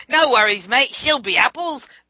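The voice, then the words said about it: Bad put-on Australian accent. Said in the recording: “my accent is beyond vicious. But still, I love me the Australian accent.”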